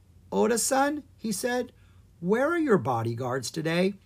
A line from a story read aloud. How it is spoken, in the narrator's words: Oda Nobu laughed